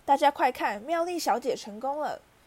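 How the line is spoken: Excited shout, clapping. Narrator (Chinese): 弗利维教授拍着手喊

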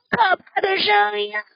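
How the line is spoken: Monster shouting. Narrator (Chinese): 年兽捂着耳朵大喊

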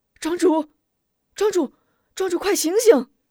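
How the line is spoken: Calling out urgently. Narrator (Chinese): 乡亲们 呼唤

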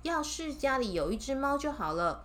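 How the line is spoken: Old woman sighing. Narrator (Chinese): 老太太一边叹气一边说

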